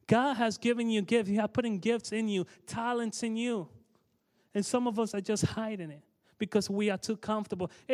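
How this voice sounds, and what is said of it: Thick accent. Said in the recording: “you could hear my accent, how thick it is ... he's saying that word funny ... look at his accent”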